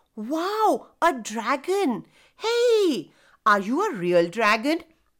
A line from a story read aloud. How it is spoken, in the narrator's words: asked the others